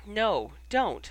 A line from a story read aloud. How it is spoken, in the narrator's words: she pleaded